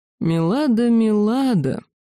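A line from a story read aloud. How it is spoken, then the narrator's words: Mocking, close by. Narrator (Russian): насмешливо прозвучало близко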